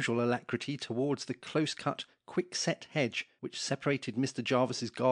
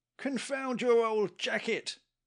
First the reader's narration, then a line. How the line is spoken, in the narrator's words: cried a voice